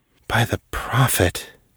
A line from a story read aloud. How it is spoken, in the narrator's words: breathed, unable to look away